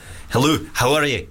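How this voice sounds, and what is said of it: Put-on Scottish accent. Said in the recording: “Scottish”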